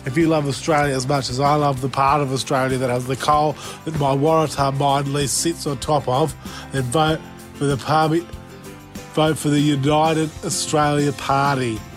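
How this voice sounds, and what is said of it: Incredible impression of a politician. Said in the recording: “doing an incredible impression”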